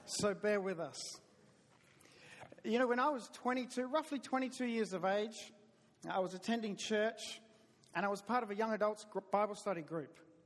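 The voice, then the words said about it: Southern US accent. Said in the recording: “I talk funny. It's my southern accent.”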